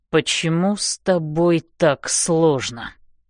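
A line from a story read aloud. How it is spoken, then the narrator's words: Through gritted teeth. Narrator (Russian): говорит он сквозь зубы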